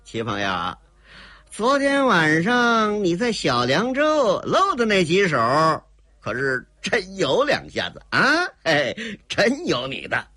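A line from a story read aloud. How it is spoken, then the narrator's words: Dry forced laugh. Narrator (Chinese): 当下干笑了一声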